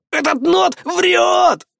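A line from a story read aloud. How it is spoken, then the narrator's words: Yelling. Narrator (Russian): заорал он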